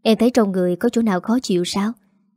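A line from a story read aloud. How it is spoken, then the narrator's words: Soft, curious. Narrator (Vietnamese): Dương tò mò cô khẽ hỏi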